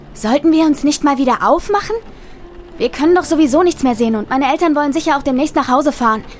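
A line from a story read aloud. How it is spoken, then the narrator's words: Nearly shouting over rain. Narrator (German): schrie meine Cousine fast, um den lauten Regen zu übertönen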